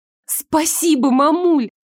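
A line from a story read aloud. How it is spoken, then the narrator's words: Daughter's joyful exclamation. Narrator (Russian): радостно воскликнула дочь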